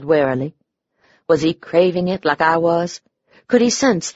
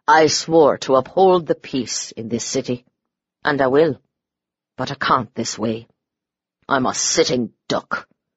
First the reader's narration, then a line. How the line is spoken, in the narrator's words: he said bitterly